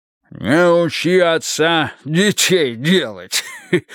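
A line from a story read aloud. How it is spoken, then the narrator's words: Pleased chuckle. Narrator (Russian): хохотнул, довольно блестя глазами, Брежнев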